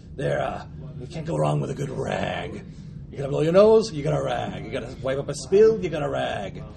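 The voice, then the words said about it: Funny smoker's character voice. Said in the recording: “voice is funny ... from all the smoking”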